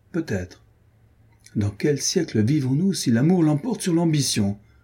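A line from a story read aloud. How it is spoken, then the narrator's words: Cheerful. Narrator (French): dit gaiement Adrienne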